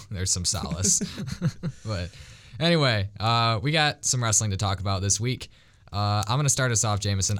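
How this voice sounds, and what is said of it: Hoarse, fading voice. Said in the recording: “If you can't tell from my voice, I'm losing it to winter.”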